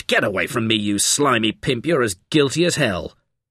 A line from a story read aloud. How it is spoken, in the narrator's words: Rogers snapped